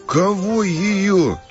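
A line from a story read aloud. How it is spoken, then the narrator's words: Near howl. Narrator (Russian): чуть не взвыл Санек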